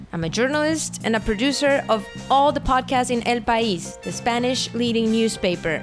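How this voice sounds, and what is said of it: Accented English. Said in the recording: “with an accent”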